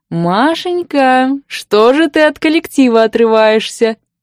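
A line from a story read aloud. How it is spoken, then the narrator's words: Purring close to ear. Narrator (Russian): Промурлыкал возле уха неслышно подкравшийся предмет моих невеселых размышлений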